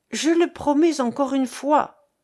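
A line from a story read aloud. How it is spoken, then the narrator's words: Exclaimed. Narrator (French): s'écria-t-il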